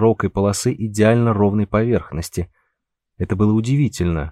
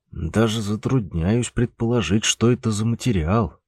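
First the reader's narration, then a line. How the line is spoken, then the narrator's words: Through gritted teeth, disconcerted. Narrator (Russian): процедил сквозь зубы Трифон, будучи обескураженным не на шутку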